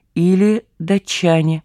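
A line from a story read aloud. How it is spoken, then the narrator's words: Calm reply. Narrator (Russian): Вождь ответил спокойно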